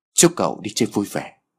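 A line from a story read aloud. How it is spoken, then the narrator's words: Smiling speech. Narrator (Vietnamese): người đàn ông này cười và nói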